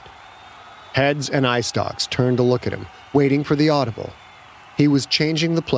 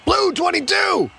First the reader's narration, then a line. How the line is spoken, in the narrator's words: he shouted down the left side of the line